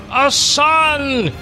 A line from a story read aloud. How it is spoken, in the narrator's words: shouted Melchior